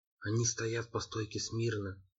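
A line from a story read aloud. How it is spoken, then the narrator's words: Whisper. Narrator (Russian): прошептал я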